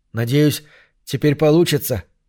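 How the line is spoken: Joyful blurt. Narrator (Russian): выпалил он радостно

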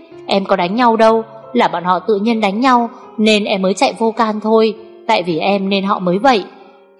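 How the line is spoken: Flustered hurried explanation. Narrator (Vietnamese): Huyền liền rối rít giải thích

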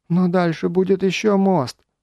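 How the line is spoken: Whining. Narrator (Russian): заскулил

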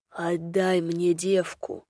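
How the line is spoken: Huge bear growling. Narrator (Russian): прорычал огромный рыжий медведь

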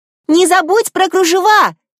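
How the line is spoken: Shouting after departing carriage. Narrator (Russian): кричала вслед отъезжающему экипажу Анастасия

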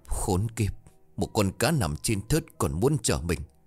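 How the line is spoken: Stammering. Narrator (Vietnamese): Hắn lắp bắp

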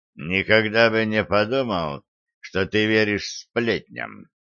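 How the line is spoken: Grumbling. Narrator (Russian): проворчал Келс

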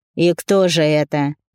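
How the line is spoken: Scornful snort. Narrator (Russian): Павел ... презрительно хмыкнул

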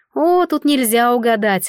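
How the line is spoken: Snorted. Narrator (Russian): фыркнула Ванна

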